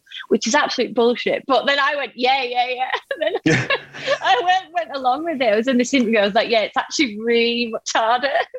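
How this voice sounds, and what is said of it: Strong regional accent. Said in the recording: “my favourite accent of all the ones you do is just yours ... you've got a strong accent”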